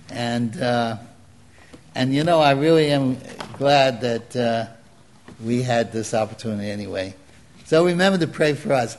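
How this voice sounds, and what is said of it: Brooklyn accent. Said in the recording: “People recognize me by my voice, right? The Brooklyn accent.”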